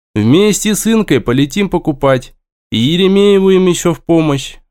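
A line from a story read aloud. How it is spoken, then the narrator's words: Sighing. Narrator (Russian): вздохнул я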